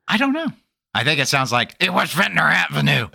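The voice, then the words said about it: Imitates another person's voice. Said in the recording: “That's my Bruce impression.”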